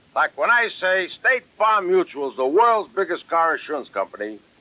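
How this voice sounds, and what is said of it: Strong Brooklyn accent. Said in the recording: “people telling me I talk with a bad Brooklyn accent.”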